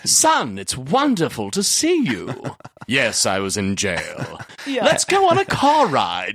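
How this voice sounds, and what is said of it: Put-on British accent. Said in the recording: “And is British. ... I'm British ... Well, I just pretended I was Hugh Grant. ... I speak like this the entire time.”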